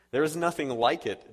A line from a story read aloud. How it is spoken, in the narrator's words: replied